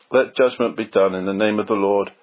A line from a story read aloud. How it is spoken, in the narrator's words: Bilney answered calmly